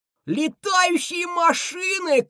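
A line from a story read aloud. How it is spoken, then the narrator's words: Shout drowned out. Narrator (Russian): крикнул я, но мой голос был заглушен более громким голосом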